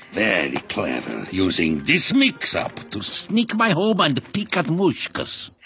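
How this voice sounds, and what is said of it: Put-on Russian accent. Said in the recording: “Doing a Russian accent.”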